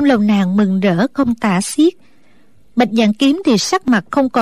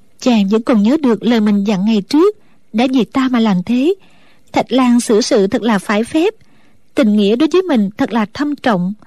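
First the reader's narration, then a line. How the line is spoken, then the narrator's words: Smiling, to herself. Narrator (Vietnamese): mỉm cười tự nhủ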